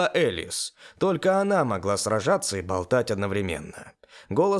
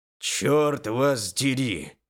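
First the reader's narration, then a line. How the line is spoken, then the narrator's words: Growled. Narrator (Russian): прорычал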